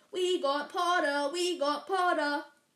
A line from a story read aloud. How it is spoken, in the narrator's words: the Weasley twins shouted